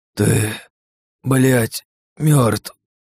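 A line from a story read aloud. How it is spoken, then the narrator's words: Hoarse rasp. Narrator (Russian): прохрипел он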